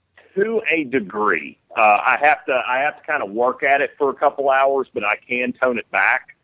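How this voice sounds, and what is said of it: Southern American accent. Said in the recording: “obviously with my voice, I play a lot of Southern people ... Can you lose your Southern accent? ... I got a head cold”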